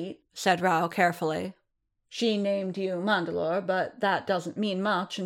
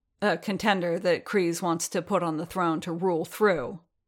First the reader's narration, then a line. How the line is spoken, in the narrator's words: Din growled